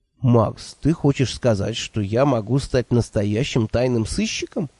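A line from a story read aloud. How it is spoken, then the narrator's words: Confused question. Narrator (Russian): растерянно поинтересовался Номинорих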